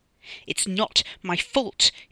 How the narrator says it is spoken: he spat at her

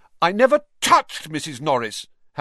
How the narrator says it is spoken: Harry said loudly, uncomfortably aware of everyone looking at him

